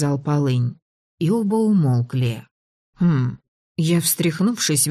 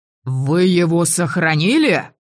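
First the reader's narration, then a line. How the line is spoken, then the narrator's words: Shout of genuine astonishment. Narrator (Russian): Анте выкрикнул эту фразу с неподдельным изумлением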